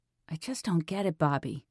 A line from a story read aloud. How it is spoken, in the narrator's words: Dee Dee said quietly